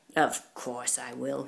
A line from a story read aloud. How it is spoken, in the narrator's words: grunted